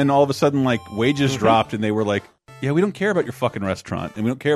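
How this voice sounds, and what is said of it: Usual voice. Nothing is said of it.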